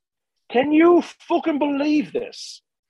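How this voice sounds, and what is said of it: Heavy British accent. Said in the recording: “with a heavy British accent”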